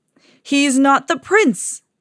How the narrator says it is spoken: yelled

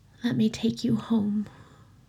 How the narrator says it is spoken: Aziraphale murmured

